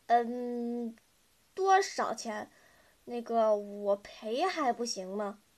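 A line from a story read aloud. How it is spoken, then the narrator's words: Pitiful stammering. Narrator (Chinese): 浩浩装出一副可怜巴巴的样子，结结巴巴地说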